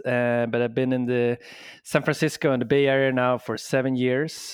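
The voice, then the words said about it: Swedish accent. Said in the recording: “I'm from Sweden originally, hence the accent”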